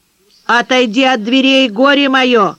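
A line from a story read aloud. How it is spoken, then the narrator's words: Menacing shout. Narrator (Russian): грозно кричала Анисия Матвеевна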